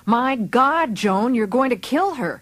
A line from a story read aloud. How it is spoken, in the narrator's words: the secretary yelled